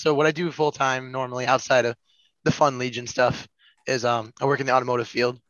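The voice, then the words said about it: Rough, slightly messed-up voice. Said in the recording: “My voice is a little messed up. I was just sick this past week too”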